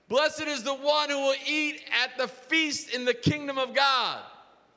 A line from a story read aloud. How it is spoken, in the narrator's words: someone in the party yells out